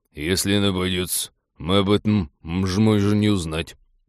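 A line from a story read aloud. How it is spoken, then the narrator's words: Ominous mutter. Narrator (Russian): зловеще буркнул Михалыч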